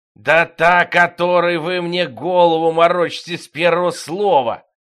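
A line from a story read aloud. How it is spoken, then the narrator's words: Growled. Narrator (Russian): прорычал пистон девятый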